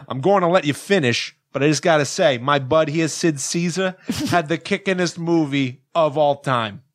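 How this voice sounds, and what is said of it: Put-on New York accent. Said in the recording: “Well, I'll do New York now.”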